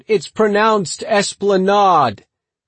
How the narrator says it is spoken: some guy called out

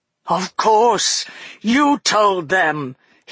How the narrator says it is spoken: he cried

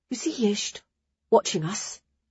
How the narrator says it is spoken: Ara hissed

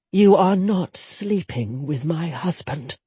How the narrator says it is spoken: Jetta said grimly

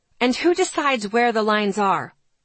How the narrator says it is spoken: I snapped back

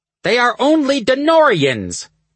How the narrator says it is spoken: the elder snapped

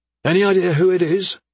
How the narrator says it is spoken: Dessel asked loudly, to be heard above the commotion

